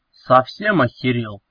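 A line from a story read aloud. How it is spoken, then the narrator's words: Growl. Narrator (Russian): рыкнул он Кешу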